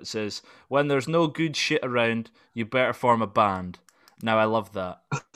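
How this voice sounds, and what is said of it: Scottish accent. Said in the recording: “It's good to hear it in your accent. It's amazing, man. You're Scottish”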